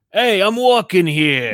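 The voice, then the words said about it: Put-on New York accent. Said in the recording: “a New York accent”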